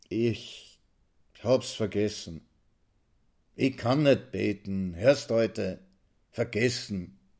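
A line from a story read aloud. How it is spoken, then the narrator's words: Confused, weak self-justification. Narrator (German): rechtfertigt er sich verwirrt, plötzlich schwach wie nach einem heißen Bad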